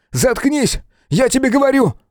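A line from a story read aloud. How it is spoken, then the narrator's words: Shouted. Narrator (Russian): выкрикнул Том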